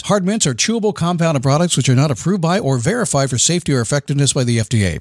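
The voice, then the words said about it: Announcer-style radio voice. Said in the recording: “And now I get to use my radio voice.”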